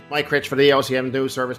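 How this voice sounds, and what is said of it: Towny Newfoundland radio-announcer twang. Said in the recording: “one of the first impressions I ever did was of my father on the radio ... real towny twang”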